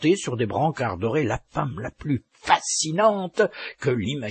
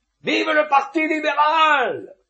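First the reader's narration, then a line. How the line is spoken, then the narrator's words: Crowd exclaiming. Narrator (French): s'écria-t-on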